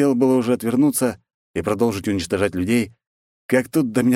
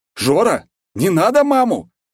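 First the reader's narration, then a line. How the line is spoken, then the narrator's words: Loud yell, secrecy abandoned. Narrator (Russian): Плюнув на скрытность, заорал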